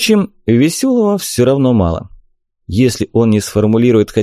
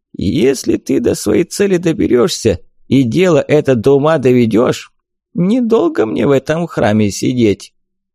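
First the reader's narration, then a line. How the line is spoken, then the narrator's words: Sad voice. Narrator (Russian): печально сообщил мне голос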